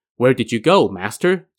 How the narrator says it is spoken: Ji Fa asked

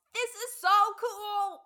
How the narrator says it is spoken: Peggy is in shock while Bobby yells

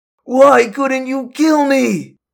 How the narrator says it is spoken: the man shouted

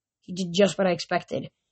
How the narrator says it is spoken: he said

